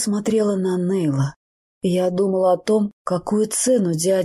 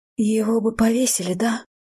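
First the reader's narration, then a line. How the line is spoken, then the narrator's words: Whispering. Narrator (Russian): прошептала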